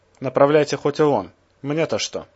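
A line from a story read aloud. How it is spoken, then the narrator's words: Guard snapping back. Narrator (Russian): огрызнулся конвоир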